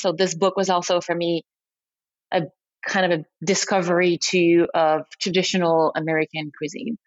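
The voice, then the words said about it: Thick French accent. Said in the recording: “I'm French, so as you can probably hear it in my very thick accent”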